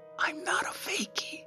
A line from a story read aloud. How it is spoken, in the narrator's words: whispered